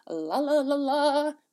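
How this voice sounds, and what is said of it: Sung radio-ad jingle voice. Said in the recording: “That was my radio voice jingle. That was a terrible jingle. ... Terrible impression of radio advertising.”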